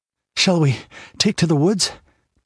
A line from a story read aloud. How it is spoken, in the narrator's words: panted Balthus